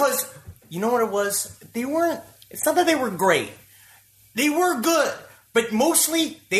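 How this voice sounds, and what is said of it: Usual voice. Nothing is said of it.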